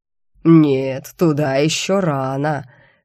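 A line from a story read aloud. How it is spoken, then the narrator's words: Sepulchral demonic voice. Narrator (Russian): все так же загробным голосом прокомментировал демон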